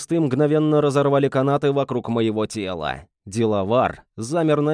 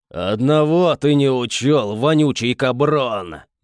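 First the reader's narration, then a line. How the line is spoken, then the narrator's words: Inhuman voice. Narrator (Russian): Вырвалось у меня нечеловеческим голосом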